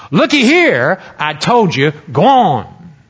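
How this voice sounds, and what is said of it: Put-on Southern accent. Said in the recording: “this angel at least is a southern angel ... I'm feeling that angel's accent”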